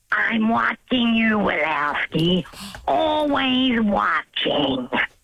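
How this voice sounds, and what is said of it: Old lady monster character voice. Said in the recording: “from Monsters, Inc. ... That's that's the old lady monster that has the pointy glasses”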